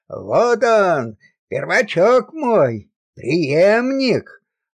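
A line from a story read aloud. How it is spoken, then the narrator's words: Proud, tender exclamation. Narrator (Russian): воскликнул он с гордостью и умилением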